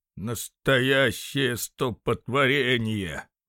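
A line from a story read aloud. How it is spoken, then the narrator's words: Old man grumbling discontentedly. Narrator (Russian): недовольно бурчал старый Альфонсо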